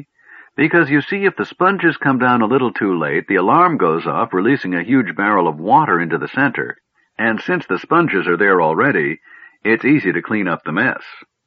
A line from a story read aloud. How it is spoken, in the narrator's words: said Nosh happily